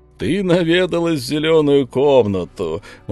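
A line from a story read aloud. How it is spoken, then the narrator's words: Laughing. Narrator (Russian): засмеялся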